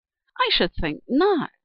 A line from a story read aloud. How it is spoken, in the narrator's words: exclaimed Teenchy Duck